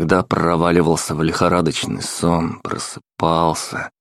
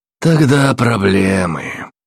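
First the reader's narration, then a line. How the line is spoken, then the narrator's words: Sighing. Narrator (Russian): вздохнул Уильям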